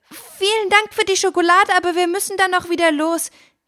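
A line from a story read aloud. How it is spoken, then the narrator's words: Calling out. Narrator (German): rief Fine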